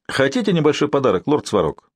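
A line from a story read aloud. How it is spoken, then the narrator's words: Cheerful. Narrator (Russian): сказал маркиз весело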